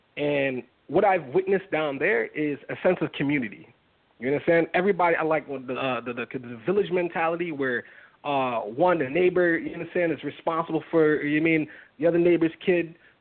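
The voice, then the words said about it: Trinidadian accent. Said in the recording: “I'm pretty sure you can hear it in my accent. ... My mom and dad's from Trinidad.”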